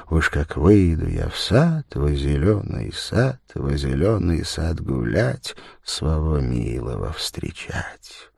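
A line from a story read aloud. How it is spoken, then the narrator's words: Happy, barely audible singing. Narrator (Russian): счастливо вздохнув, она чуть слышно запела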